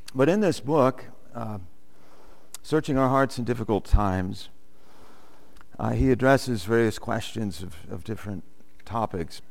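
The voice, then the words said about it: Congested voice. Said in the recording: “forgive my voice... I'm fighting somewhat of a congestion, cold of some kind”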